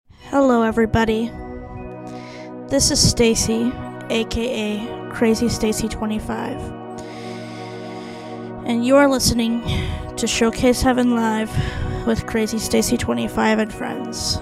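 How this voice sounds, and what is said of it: Sad, subdued voice. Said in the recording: “as you can tell by my voice tonight, I am not myself. In fact, I feel pretty sad right now”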